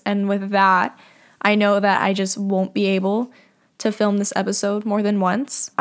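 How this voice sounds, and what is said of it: Teary, emotional voice. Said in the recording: “get teary-eyed at some points. I'm sure you can probably already hear it in my voice.”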